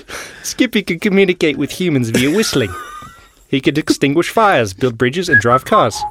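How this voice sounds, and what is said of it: Hybrid Irish-Australian-New Zealand accent. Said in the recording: “that was probably a very offensive accent... That felt like kind of a mix between Irish, a little bit of Australian, a little bit of New Zealand. It was like a hybrid.”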